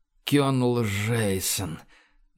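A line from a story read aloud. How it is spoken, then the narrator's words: King, strained exhale. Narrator (Russian): натужно выдохнул король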